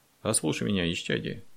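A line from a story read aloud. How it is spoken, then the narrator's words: Calm. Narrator (Russian): спокойно сказал Андрей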